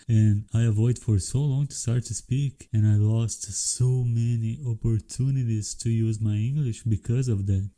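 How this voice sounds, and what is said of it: Brazilian-accented English. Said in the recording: “I have Brazilian accent”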